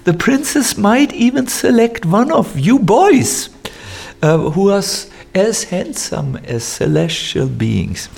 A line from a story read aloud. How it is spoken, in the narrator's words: said the brahmanas chuckling